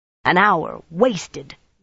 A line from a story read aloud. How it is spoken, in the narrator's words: Nynaeve grumbled